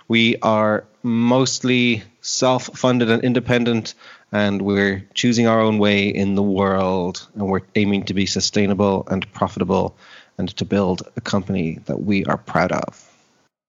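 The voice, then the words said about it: Irish accent. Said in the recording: “I detect you are not with a Scottish accent or an American one ... I am in Dublin, Ireland, born and bred”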